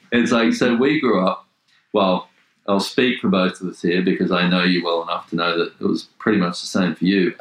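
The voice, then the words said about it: Australian male accent. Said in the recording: “we're both Australian men, as you can probably hear by the accents”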